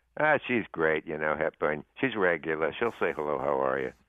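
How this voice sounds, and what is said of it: Imitates another person's voice. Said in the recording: “So that's my imitation.”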